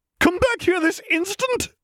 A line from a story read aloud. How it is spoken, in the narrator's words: cried McGonagall